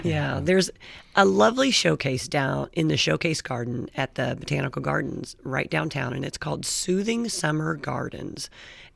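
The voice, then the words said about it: Raspy voice. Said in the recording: “you'll have to excuse my raspy voice today. I got a little allergies going on.”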